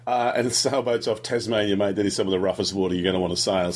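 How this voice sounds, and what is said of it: Non-local regional accent. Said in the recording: “you can tell from my my accent that I ain't from around here”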